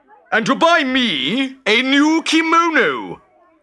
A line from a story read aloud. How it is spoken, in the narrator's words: roared the merchant